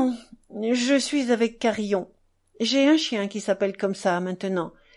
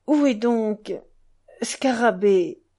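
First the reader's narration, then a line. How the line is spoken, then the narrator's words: Broken voice. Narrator (French): demanda Ilyusha d'une voix brisée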